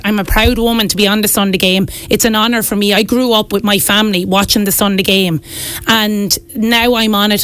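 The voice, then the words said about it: Irish Wexford accent. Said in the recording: “my Wexford accent”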